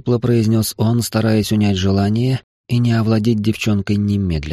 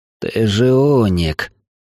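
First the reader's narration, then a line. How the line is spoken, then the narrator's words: Breathless, delighted and anxious. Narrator (Russian): выдохнул с нескрываемым восторгом и тревогой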